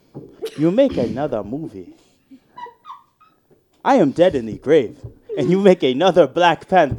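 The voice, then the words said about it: Put-on African accent. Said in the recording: “hear my African accent? ... Your African accent?”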